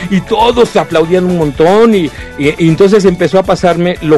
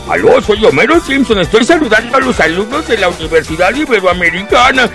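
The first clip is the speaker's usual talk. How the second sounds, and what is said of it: Homer Simpson cartoon character voice. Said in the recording (Spanish): “querían saludos de Homero Simpson ... tenía que hacer la voz.”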